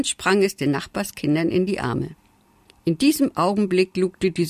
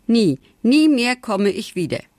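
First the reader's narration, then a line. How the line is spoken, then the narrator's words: Called out. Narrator (German): rief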